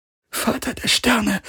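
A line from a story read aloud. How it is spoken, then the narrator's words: Whisper. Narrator (German): flüsterte sie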